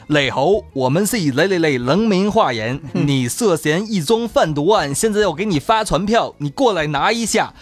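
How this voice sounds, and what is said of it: Heavy put-on regional accent. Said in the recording (Chinese): “一口浓重的口音”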